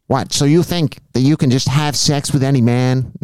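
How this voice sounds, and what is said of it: Imitates another person's voice. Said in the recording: “It wasn't a good Judge Judy impression.”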